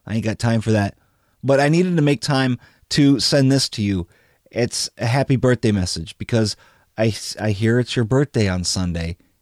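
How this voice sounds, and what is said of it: Ill, affected voice. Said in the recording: “forgive my voice. I'm getting over an acute case of bronchitis.”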